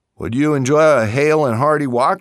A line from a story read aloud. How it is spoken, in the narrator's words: she asked him